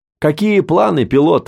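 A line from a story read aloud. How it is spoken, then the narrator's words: Shouting over rotor noise. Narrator (Russian): заорал он, перекрывая рокот винта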